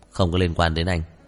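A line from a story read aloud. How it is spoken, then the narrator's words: Cold. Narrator (Vietnamese): Trần Chi Nghị lạnh lùng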